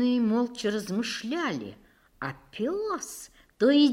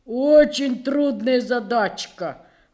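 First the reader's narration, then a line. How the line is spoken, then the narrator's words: Animals grumbling. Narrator (Russian): ворчали животные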